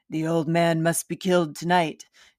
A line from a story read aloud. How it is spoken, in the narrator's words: The raspy voice man says